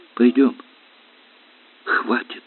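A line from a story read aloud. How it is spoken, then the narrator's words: Breaking whisper. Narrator (Russian): Срывающимся шепотом сказал Сашка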